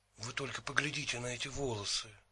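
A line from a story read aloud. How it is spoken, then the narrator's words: Whisper. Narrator (Russian): прошептал Стэнли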